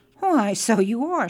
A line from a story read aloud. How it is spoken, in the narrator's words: cried